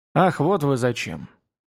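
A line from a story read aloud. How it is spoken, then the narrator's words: Sad, not angry. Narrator (Russian): продолжал дальше, впрочем, без всякого гнева, лишь с грустью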